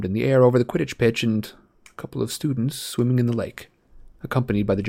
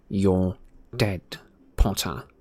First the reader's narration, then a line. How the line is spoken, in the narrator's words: he said to Harry in a low voice